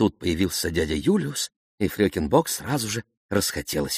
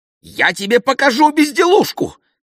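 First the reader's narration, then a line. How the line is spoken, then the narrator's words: Woman shouting. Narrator (Russian): закричала она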